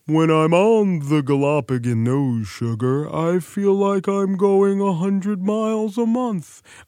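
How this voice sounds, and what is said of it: Sad turtle character voice. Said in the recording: “a great turtle impression,... Sad turtle.”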